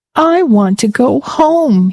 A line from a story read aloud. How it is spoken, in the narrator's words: wailed